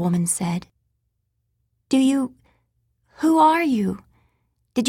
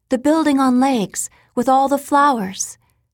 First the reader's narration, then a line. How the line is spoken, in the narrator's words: she blurted